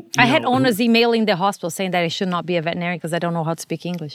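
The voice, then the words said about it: Non-native English accent. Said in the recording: “They were not talking about my medicine. They were talking about my accent.”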